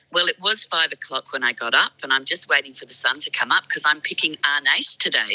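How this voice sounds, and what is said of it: Voice not at its best. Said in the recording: “Excuse my voice. It's very early in the morning.”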